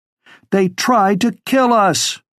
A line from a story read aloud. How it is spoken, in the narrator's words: she shouted over the rest